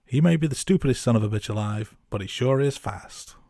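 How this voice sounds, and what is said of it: Put-on American accent. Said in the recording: “A little bit of an accent there. I apologise to our American listeners.”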